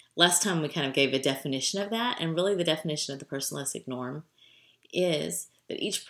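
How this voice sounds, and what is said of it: Usual voice. Nothing is said of it.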